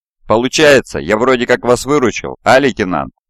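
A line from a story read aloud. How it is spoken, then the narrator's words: Snide question. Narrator (Russian): Ехидно интересуется подполковник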